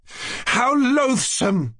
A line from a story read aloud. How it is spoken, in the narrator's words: cried Nastasya Philipovna